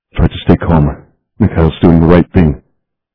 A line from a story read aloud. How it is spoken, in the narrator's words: In Hebrew, murmured